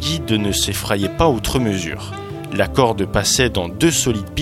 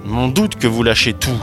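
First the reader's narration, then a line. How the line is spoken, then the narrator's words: Grumbling. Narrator (French): grogna Laurent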